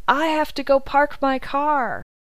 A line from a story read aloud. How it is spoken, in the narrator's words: yelled